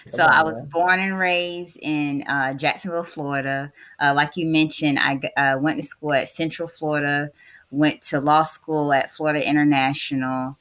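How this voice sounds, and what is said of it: Southern US country accent. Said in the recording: “I'm a country girl, if you hear my accent, proud country girl.”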